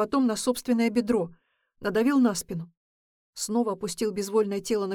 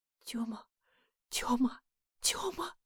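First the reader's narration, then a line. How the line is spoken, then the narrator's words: Terrified whisper. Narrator (Russian): шептала она с ужасом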